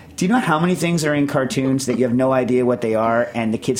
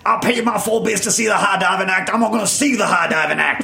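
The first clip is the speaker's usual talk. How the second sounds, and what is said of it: Yosemite Sam cartoon voice impression. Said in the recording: “Yosemite Sam's like ... that's a good impression”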